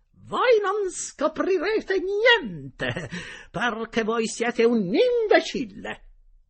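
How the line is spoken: Shrill voice. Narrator (Italian): la signora Geltrude con voce stridula gli disse

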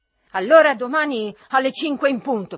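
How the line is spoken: Shouted. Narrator (Italian): gridò

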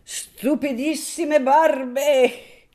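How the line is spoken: Laughing. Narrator (Italian): disse, ridendo

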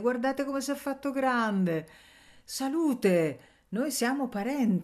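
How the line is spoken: Miller's exclamation. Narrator (Italian): esclamò il mugnaio

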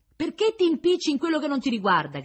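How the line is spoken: Shouting. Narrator (Italian): gridavano da una parte

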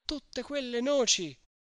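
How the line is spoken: Exclaimed. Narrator (Italian): esclamò Agnese

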